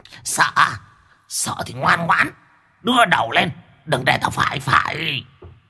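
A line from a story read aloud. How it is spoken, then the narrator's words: Squeaky laughing rat. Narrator (Vietnamese): Con chuột tinh cười rin rít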